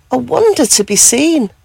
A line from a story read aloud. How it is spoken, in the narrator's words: she gasped with joy